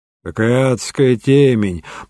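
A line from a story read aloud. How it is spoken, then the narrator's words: Grumbled. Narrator (Russian): проворчал Дреббер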